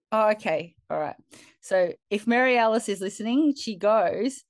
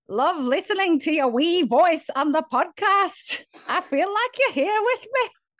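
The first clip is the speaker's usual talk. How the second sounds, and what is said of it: Put-on Irish-Scottish accent. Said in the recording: “only if you put it in an Irish accent... I think that's half Scottish, half something.”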